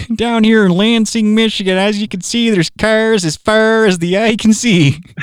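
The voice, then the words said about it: Put-on Midwestern American accent. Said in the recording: “I love the Midwest accent. It makes everything sound way less serious than it is.”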